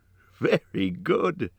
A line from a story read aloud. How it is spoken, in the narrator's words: laughed the chief of the guards